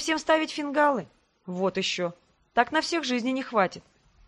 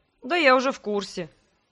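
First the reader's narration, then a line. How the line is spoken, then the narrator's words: Snort. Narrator (Russian): фыркнул брат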